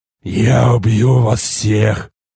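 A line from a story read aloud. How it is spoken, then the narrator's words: Hoarse roar. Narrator (Russian): Хрипло проревел я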